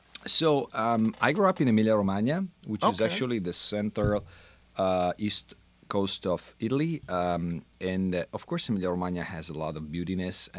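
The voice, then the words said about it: Italian accent. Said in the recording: “you have a very unique accent. ... It's Italian.”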